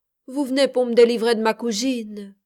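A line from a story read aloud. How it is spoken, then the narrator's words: Sighed. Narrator (French): soupire-t-il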